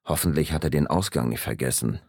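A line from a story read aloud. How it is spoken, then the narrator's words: Murmuring. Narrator (German): murmelte ich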